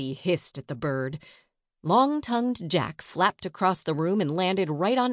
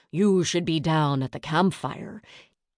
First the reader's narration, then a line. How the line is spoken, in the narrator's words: Teach grumbled in his raspy voice